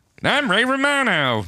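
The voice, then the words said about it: Unconvincing Ray Romano impression. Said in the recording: “do an impersonation of Ray Romano ... That doesn't really sound like him.”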